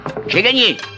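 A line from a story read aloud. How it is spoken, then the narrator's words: Shout. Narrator (French): criait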